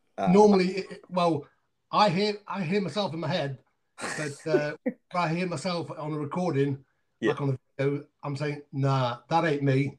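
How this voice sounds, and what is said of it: Speaks with a British accent. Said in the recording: “Love the accent, man.”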